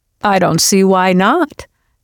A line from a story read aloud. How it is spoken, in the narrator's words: Daryl said cheerfully